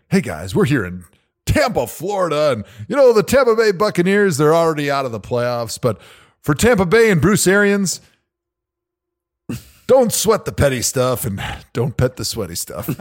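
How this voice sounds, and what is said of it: Mock sports radio announcer voice. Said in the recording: “I'm going to get into my radio voice”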